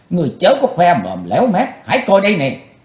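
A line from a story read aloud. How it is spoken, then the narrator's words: Angry brittle laugh. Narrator (Vietnamese): Quỳnh Giao giận dữ cất tiếng cười giòn giả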